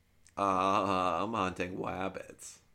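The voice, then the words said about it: Elmer Fudd cartoon voice impression. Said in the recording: “Elmer Fudd's not too hard. ... It's not bad, but you need, like, I feel like to get a good Elmer Fudd, you had to, like, nail that stutter.”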